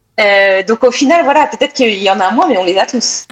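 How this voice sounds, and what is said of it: French from France accent. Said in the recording (French): “avec mon accent, ils entendent tout de suite que je viens de France”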